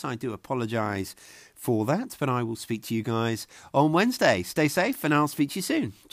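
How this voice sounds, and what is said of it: Congested voice from a cold. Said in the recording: “I'm suffering with a bit of a cold. You can probably hear it in my voice.”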